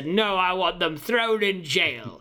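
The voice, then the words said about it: Simon Cowell impression. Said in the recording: “He's doing his best Simon Cowell impression.”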